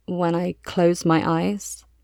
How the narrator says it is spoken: mumbles

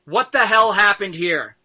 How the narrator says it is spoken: you hear bellowing out

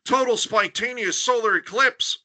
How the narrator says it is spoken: he gasped

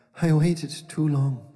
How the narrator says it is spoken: she sighed

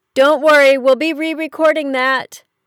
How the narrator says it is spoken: Leah yelled to Eli across the stage

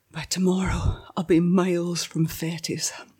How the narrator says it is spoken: I whispered to myself

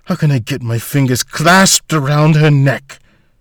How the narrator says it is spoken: Volta sighed

